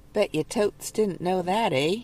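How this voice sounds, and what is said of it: Poor attempt at Canadian accent. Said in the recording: “my terrible attempt at a Canadian accent.”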